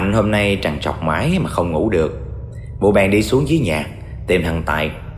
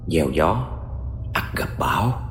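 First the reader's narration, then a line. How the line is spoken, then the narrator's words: Soft voice. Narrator (Vietnamese): thầy Ba khẽ nói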